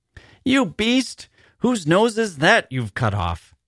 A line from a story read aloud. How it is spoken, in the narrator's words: she cried furiously